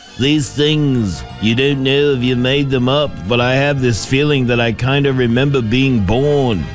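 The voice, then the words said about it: Poor imitation of another person's voice. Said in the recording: “That's a bad Paul McCartney impression.”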